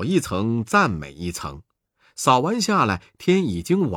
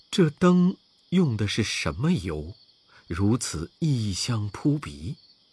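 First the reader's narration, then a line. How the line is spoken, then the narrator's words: Plain. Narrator (Chinese): 众僧人说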